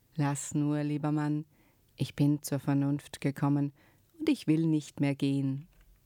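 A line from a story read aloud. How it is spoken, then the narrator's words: Suddenly calm woman. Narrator (German): die Frau plötzlich ganz ruhig und sagte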